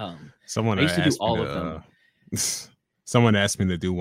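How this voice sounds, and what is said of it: Usual voice. Nothing is said of it.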